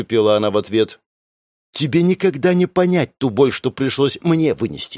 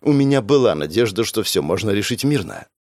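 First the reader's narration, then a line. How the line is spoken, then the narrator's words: Sighing woman. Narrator (Russian): вздохнула женщина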